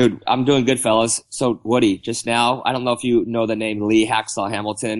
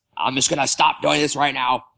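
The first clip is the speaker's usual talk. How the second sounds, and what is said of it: Imitates another person's voice. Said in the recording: “That was a horrible act, uh, horrible impersonation”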